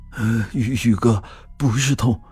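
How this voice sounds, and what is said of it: Trembling, shaky voice. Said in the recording (Chinese): “用颤抖的声音说道”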